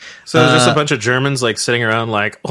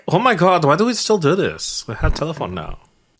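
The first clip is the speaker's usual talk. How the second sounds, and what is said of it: Put-on German accent. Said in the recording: “that was a pretty good accent. That was one of your better ones.”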